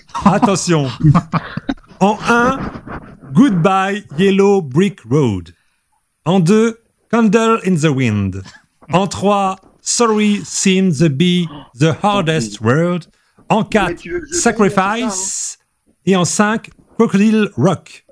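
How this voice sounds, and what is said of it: French speaker's weak English accent. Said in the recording (French): “entraîne ton accent anglais aussi... Il est très bien, mon accent anglais.”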